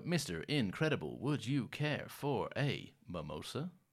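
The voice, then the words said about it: Robotic voice. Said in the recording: “That robot voice”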